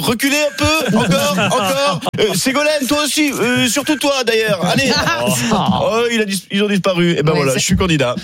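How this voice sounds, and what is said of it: Imitates another person's voice. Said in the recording (French): “c'est une imitation aussi ... j'imite les guignols qui imitaient François Hollande”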